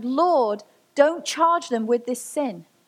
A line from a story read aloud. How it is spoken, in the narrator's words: Stephen, as he was being stoned, he fell to his knees and he shouted